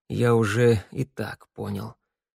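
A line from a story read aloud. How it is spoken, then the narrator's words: Muttering. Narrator (Russian): пробормотал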